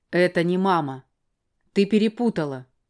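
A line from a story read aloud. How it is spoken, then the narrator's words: Sharp, rude. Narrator (Russian): резко, даже грубо ответил он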